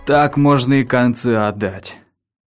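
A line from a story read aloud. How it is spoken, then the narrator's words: Mutter. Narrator (Russian): пробормотал Лакман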